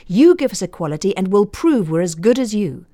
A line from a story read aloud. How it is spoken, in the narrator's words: The roar said